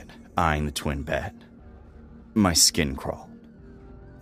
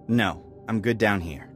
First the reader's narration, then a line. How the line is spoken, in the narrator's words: I said firmly